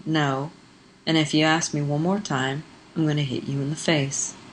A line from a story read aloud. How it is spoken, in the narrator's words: said flatly